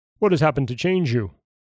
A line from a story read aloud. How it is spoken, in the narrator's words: cried Thor